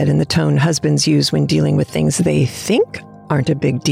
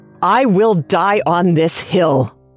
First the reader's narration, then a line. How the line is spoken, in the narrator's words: I snapped